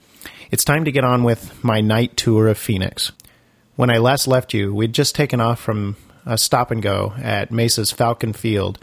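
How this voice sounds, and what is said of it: Congested voice from a cold. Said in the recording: “apologize for my voice today. I've got a cold, so I'm sure it's going to come through a bit”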